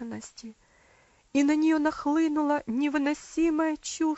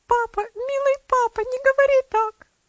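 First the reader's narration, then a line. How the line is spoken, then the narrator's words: Sobbing exclamation. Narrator (Russian): воскликнула она, разрыдавшись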